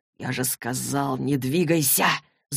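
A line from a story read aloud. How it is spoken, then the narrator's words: Hissing. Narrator (Russian): зашипел Джейс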